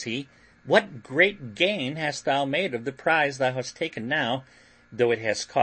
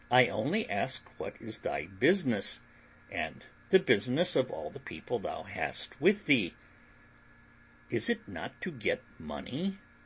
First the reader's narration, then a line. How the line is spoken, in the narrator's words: says William gravely